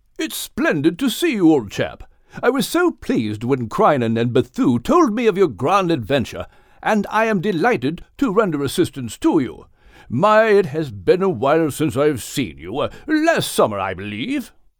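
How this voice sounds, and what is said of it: Proper English accent. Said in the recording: “with a proper English accent.”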